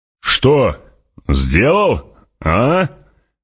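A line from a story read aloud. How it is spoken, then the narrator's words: Shouting over noise. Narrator (Russian): крикнул Стилгар, перекрывая скрип и шелест песка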